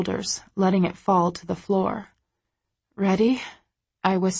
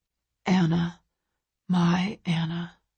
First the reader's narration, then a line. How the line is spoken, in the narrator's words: he whispers